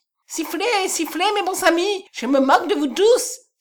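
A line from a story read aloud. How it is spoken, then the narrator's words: Exclaiming. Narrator (French): s'écria Kolb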